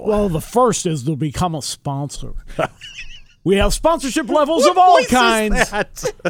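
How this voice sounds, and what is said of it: Put-on radio announcer voice. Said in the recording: “That's my radio voice.”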